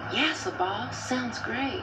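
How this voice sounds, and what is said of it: Exaggerated put-on accent. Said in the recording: “I hope you don't use that accent ... Maybe you're doing Kizzy from Roots or the lady from the Help.”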